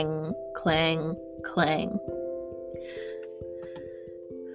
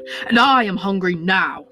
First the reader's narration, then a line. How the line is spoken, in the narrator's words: roared the wizard